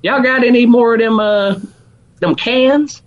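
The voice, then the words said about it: Put-on Alabama Southern accent. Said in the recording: “in my Alabama accent”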